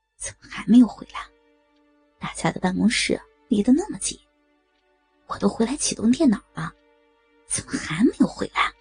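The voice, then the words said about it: Quiet muttering to oneself. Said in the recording (Chinese): “小声自语”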